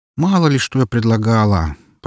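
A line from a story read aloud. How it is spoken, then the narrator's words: Grumbling. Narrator (Russian): проворчала Эльсийка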